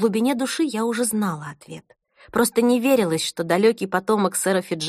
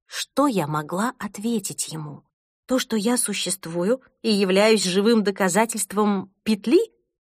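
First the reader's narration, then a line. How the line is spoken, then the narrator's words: Calmer. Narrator (Russian): продолжил более спокойно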